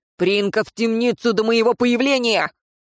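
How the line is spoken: Barked order. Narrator (Russian): рявкнул Шамис

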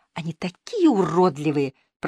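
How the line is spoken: Female whisper. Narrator (Russian): прошептала она

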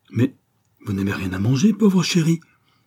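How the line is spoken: Tender pitying exclamation. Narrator (French): s'écria-t-elle avec une tendre pitié

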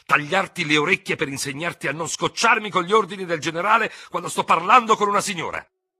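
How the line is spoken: Sudden shout. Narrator (Italian): urlò all'improvviso il tenente Ferraud

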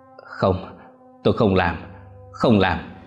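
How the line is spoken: Panting, fearful muttering. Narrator (Vietnamese): Bà thở gấp, đôi tay run rẩy, miệng lẩm bẩm

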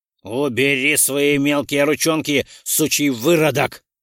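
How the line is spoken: Harsh bark. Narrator (Russian): гаркнул Ролден на азиата

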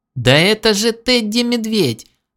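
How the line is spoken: Joyful squeal. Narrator (Russian): радостно завизжала она

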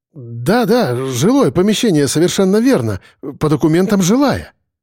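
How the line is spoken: Hurried reply. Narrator (Russian): торопливо ответил он

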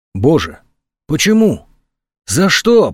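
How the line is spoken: Whisper. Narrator (Russian): прошептала

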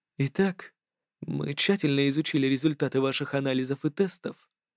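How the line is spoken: Soft. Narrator (Russian): мягко произнес

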